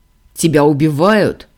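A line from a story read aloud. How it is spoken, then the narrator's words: Barking. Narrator (Russian): рявкнул Ордан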